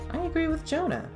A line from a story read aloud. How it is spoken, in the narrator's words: Prin piped up from her bedroom